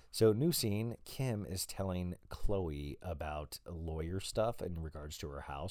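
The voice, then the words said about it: Raw, hoarse voice. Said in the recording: “My voice is pretty raw”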